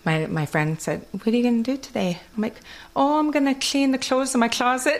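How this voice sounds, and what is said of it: Kwakwala-influenced English accent. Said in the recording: “This is how I knew I had an accent ... my accent from Kwakwala”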